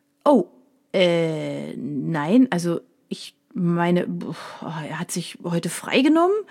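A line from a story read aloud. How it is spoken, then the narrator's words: Stuttering. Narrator (German): stotterte er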